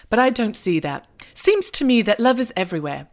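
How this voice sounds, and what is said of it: Bad British accent, Hugh Grant imitation. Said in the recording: “the voiceover from Hugh Grant ... this terrible British accent”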